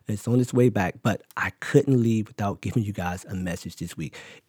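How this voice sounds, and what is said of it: Slightly hoarse, weakened voice. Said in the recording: “My voice is a little gone.”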